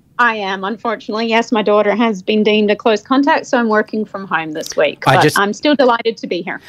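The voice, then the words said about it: Scottish-Australian hybrid accent. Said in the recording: “got the good old transatlantic Elle Macpherson, Kylie Minogue hybrid accent going on ... I'm originally from Scotland, but have lived in Australia for a very long time ... still have some British blood”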